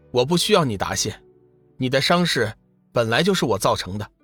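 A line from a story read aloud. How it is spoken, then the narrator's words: Calm, faint smile. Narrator (Chinese): 龙宇淡淡一笑，…说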